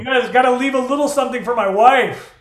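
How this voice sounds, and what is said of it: Felipe Esparza impression. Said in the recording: “That was my Felipe Esparza impression.”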